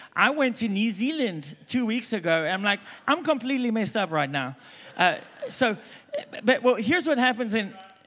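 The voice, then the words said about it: Mixed South African accent. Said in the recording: “I'm South African, if you haven't picked up by now. ... I don't even know what my accent is.”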